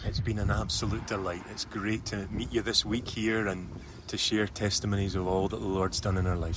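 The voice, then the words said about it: Scottish accent. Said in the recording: “he's got a great accent”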